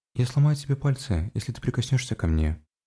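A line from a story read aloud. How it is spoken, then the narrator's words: Utterly flat voice. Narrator (Russian): произнесла совершенно бесцветным голосом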